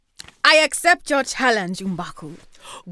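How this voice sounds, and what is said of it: Attempted African accent. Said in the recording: “I'm going to try an African accent”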